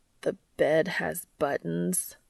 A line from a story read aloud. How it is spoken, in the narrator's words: Cass groans